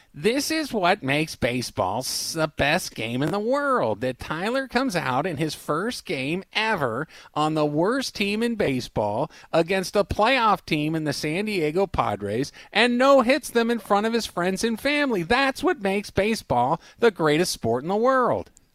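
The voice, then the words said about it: Imitates a sports commentator's voice. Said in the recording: “my Tim Kurkjian impression”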